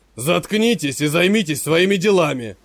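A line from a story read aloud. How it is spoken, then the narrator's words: Growl. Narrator (Russian): прорычал он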